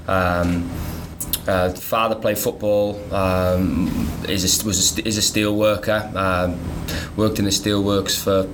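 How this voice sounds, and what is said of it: Noticeable British regional accent. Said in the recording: “a really cool accent”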